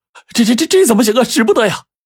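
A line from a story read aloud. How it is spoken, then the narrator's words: Alarmed shouting. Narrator (Chinese): 伙计们就叫喊起来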